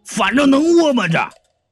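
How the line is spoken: Angry yelling in pain. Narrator (Chinese): 领头的一疼就火了，冲着小弟就嚷嚷

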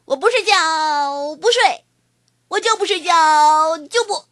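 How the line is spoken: Screaming tantrum. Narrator (Chinese): 我一路冲着妈妈大喊大叫着，嚷嚷着

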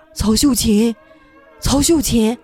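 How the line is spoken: Calling out. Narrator (Chinese): 就这么喊

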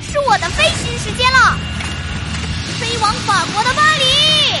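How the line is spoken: Loud shout. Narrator (Chinese): 乐迪大喊一声

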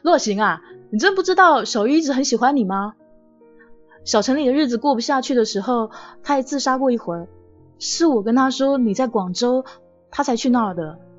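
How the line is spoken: Loud. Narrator (Chinese): 季小海大声的说

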